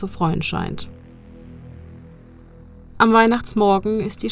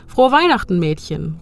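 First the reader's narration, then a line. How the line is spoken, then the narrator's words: Called out. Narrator (German): ruft er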